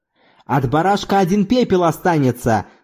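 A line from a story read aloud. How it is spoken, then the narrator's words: Shouted. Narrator (Russian): закричал Зорбас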